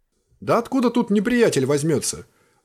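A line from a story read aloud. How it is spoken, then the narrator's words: Exclamation. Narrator (Russian): воскликнул Кринт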